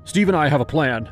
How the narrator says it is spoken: Patrick blurted

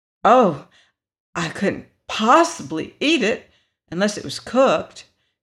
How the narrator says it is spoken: exclaimed Dorothy

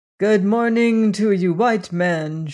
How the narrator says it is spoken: she said

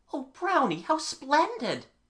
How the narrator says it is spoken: cried in an ecstasy

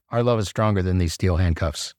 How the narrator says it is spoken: I said

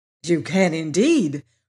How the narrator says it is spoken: replied the Scarecrow eagerly

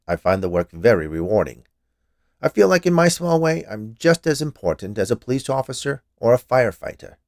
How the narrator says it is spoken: he said, in a somewhat defensive tone

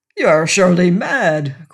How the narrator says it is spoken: cried Bishop when he had recovered speech

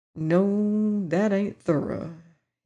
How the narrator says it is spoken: he murmured

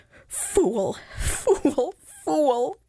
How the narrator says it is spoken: he cried to himself

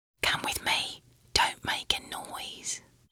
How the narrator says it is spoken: whispered in an angel's voice

